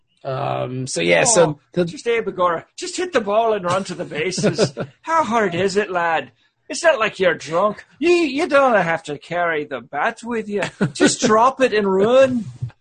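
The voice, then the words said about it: Put-on Irish accent. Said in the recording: “very good Irish accent ... Weird Scrooge McDuck”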